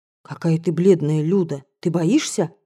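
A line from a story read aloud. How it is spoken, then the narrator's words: Whispered. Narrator (Russian): прошептала Краснушка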